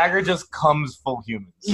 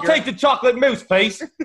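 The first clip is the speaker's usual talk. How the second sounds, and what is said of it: Put-on British accent. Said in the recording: “a fucking British accent.”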